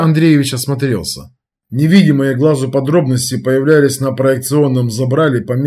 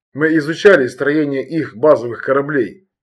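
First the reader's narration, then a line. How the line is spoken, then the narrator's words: Plain. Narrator (Russian): ответил Земцов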